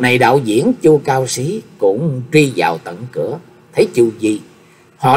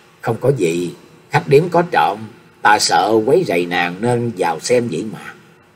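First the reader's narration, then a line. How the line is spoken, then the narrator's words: Sighing, laughing. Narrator (Vietnamese): Nhạc Chi Vương thở dài cười nói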